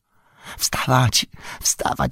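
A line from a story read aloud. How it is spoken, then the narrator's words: Whispered. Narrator (Polish): szepnął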